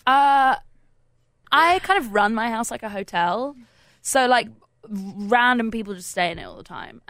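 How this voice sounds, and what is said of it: English accent. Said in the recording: “you grew up in England, right? ... I noticed the accent.”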